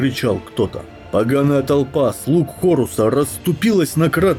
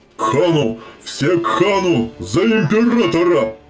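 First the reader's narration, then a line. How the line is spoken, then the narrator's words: Roaring crowd. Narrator (Russian): Взревели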